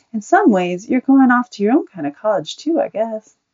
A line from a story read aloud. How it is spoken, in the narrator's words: she smiled at Buddy and said kindly